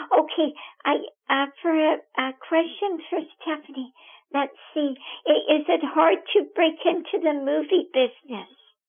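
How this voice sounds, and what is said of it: Slightly hoarse, recovering voice. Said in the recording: “I have a little frog in my throat ... I ended up losing my voice ... I just have a little bit left”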